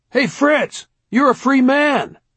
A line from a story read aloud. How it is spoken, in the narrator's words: The voice yelled